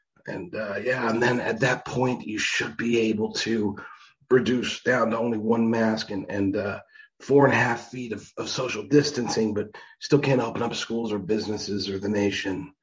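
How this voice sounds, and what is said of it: Poor impression of Anthony Fauci. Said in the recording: “2045 by Anthony Fauci ... that was a terrible impersonation.”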